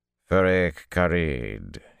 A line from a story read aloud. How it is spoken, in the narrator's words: said coolly